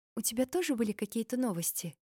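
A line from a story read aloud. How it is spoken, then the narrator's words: Quiet question. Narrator (Russian): спросила тихо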